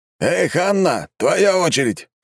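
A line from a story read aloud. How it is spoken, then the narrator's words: Shout. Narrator (Russian): крикнул ее куратор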